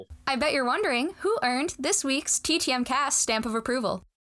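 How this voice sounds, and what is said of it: Exaggerated radio announcer voice. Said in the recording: “can I use my radio voice ... That was poor. That was so poor.”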